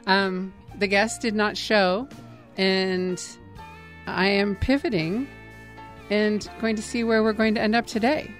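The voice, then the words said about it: Slightly strained, fading voice. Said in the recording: “losing my voice a little bit”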